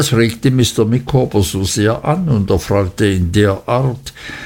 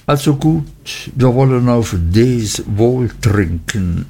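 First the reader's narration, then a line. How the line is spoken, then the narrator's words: Embarrassed, hesitant. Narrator (German): Nach langem verlegenen Erröten, Stottern und Leugnen sagte ich endlich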